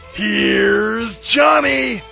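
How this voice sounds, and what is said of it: Imitates another person's voice. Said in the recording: “I will even impersonate the person doing it”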